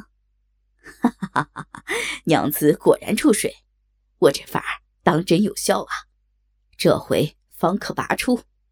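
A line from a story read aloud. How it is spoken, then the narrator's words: Hearty laughter. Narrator (Chinese): 高衙内哈哈一笑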